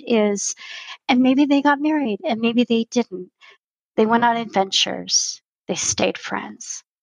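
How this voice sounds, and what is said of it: Teary, emotional voice. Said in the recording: “I'm going to get teary saying this”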